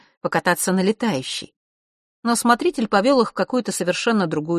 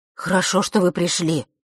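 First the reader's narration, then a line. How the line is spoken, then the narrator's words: Relieved exhale. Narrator (Russian): облегченно выдохнул он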